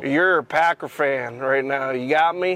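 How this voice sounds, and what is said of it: Imitated southern accent. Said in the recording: “In his southern accent.”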